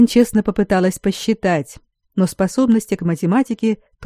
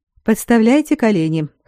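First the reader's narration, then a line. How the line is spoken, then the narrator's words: Snorting. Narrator (Russian): хмыкнул магистр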